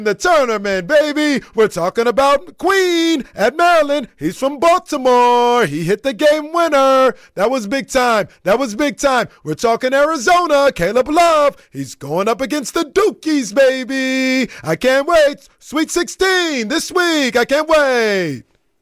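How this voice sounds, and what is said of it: Bad Dick Vitale impression. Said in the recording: “That's objectively a really bad Dick Vitale impression. ... It's terrible. ... You got to force it more from like the like from the bottom of your chest.”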